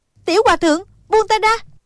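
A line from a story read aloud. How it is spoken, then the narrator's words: Weak woman crying out. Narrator (Vietnamese): Quyết Đao lão tổ đã điểm quyệt cô, nên cô không còn sức phản kháng, chỉ có thể kêu lên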